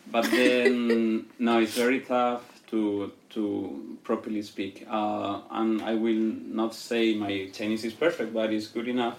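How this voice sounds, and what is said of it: Spanish accent in English. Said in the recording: “I'm a Spanish speaker, as you might already realize ... My little accent.”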